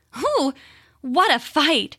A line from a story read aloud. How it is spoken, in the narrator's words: she said, panting as though she were very tired